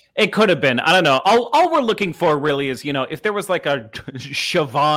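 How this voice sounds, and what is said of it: Usual voice. Nothing is said of it.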